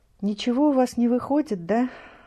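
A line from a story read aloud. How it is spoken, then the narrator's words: Sighing. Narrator (Russian): вздохнула Зинаида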